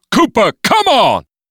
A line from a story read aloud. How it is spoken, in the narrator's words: Clarence stopped only long enough to shout over his shoulder